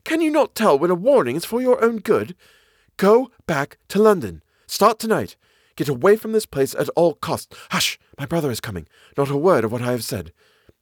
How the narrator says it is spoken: she cried

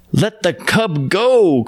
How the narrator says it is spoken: cried the men

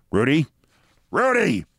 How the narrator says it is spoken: She bellowed

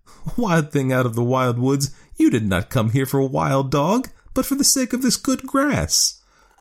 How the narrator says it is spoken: The woman laughed and said

